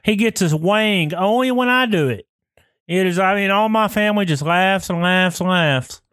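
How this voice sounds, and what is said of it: Thick Southern American accent. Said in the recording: “your accent sounds thick probably on here ... you're a little more southern ... it's very, y'all ... I got my mama's accent, man. It's thick.”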